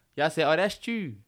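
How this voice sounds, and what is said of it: Put-on Baltimore accent. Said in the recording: “Baltimore niggas accent... That's a Baltimore accent.”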